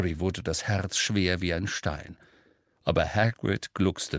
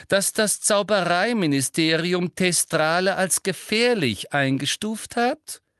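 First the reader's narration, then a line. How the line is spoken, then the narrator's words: Loud interruption. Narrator (German): unterbrach ihn Umbridge laut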